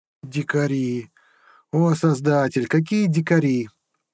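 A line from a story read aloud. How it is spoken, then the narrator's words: Groaning prince. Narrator (Russian): простонал принц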